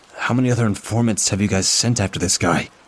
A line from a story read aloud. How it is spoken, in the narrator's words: I heard my voice quake as I asked